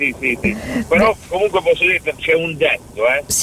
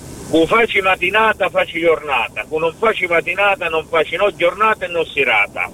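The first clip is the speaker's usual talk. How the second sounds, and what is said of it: Speaks in Calabrian dialect. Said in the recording (Italian): “Un detto calabrese che dice questo, te lo dico in dialetto.”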